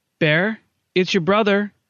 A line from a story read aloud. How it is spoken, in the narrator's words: she called out